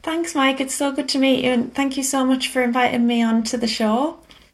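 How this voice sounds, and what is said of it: Northern English British accent. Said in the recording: “Your British accent ... into the north”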